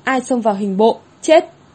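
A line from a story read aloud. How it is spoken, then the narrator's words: Stern shout. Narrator (Vietnamese): Quan quân trung niên quát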